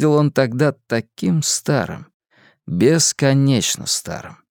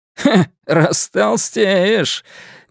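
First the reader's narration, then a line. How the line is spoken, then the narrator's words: Giggle. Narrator (Russian): Мистер Кин хихикнул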